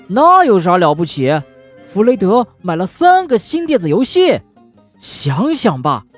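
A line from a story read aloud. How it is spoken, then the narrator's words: Child shouting. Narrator (Chinese): 小熊哥哥喊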